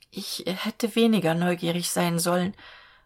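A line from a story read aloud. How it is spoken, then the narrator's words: Trembling voice. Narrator (German): sagte sie mit bebender Stimme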